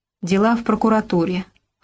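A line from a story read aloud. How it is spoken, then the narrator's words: Gloomy reply. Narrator (Russian): хмуро ответил Робко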